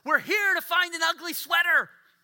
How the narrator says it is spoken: one of the girls just obliviously blurts out

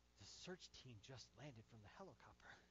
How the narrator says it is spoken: In an odd voice, in an odd whispering voice, the child answered

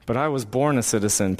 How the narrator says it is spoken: Paul replied

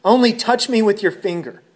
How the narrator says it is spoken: the boy pleaded

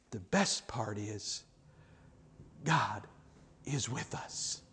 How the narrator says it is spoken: Wesley whispered in his ear

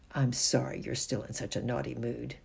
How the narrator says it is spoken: said in a cold voice

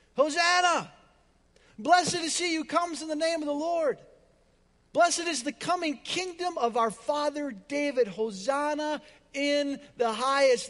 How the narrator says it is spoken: those who went ahead and those who were who followed shouted

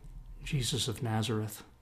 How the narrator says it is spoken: they reply, no doubt a little more meekly than before

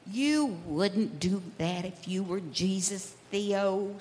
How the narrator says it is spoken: said Nora

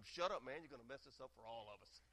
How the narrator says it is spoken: the lion whispers

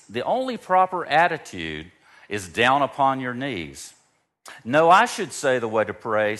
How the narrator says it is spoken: said Reverend Dr

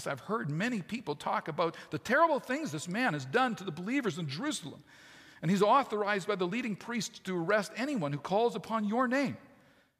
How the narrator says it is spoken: exclaimed Ananias

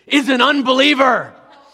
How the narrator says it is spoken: he bellowed indignantly

